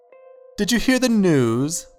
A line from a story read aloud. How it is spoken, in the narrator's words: the slight man chirped in an overly cheery way